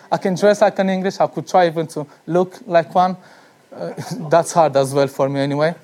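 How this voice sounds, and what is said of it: Non-native English accent. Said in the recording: “he has a certain accent, as you would notice with me, for example, when I speak ... you'll understand that I'm not in English ... when I start to speak and talk to you in English, you already understand that something is off. Namely my accent.”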